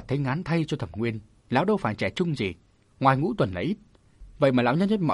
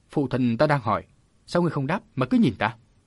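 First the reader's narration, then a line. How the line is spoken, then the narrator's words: Irritable snap. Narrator (Vietnamese): Thẩm Nguyên trở lên tiếng gắt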